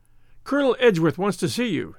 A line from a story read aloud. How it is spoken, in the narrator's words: he panted